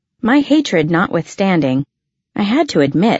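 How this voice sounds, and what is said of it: Usual voice. Nothing is said of it.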